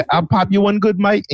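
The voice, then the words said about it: Put-on British gangster accent. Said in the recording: “British gangsters and you hear them, they're like ... It's definitely not threatening”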